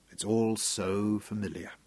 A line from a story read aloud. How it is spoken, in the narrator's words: Craig muttered